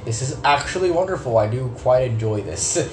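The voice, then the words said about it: Sarcastic delivery. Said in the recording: “I said that sarcastically”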